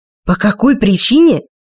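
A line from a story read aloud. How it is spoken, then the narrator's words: Hissing, spluttering into microphone. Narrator (Russian): Рич шипел и плевался в микрофон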